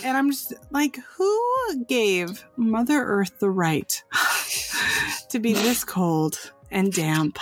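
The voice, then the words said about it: Congested, stuffy-nosed voice. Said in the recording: “my sexy voice was so sexy, is because I am so sick of this weather gunking up my nose and making my nose runny”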